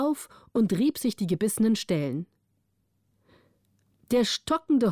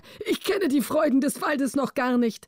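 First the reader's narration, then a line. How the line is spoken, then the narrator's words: Calling out. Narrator (German): rief er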